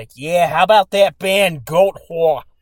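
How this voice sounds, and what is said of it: Imitated thick New York accent, drunk. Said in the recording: “he's got like that really thick New York accent ... this motherfucker was so drunk”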